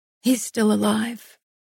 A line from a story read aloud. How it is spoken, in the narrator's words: I said roughly